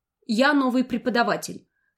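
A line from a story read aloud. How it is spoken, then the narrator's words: Cold. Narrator (Russian): сказала холодно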